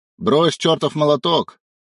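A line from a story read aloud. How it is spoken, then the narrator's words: Barking. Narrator (Russian): рявкнул второй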